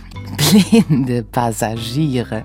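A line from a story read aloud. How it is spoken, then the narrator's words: Giggling. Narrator (German): gluckste sie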